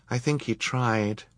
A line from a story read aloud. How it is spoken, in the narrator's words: she said quietly